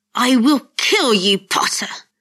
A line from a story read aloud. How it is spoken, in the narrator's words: Malfoy snarled